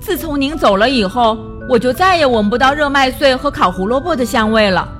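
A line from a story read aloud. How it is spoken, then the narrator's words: Sudden, loud. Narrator (Chinese): 他突然大声说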